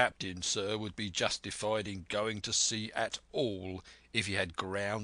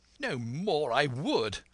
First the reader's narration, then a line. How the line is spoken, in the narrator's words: cried the squire